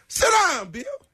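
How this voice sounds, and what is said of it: Imitates another person's voice. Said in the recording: “my best Sam Jackson impersonation”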